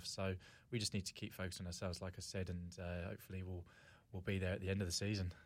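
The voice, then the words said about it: English accent. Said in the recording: “I can hear the accent, obviously, from England”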